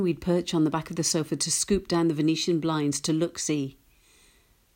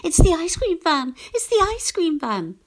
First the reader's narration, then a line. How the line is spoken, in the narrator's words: squealing